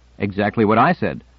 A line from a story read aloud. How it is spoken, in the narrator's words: Donald said with a chuckle